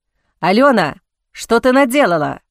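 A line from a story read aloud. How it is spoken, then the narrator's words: Growling. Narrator (Russian): прорычал Арван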